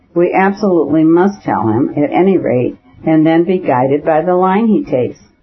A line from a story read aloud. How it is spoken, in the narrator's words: said Vronsky in a soft and persuasive voice, trying to soothe her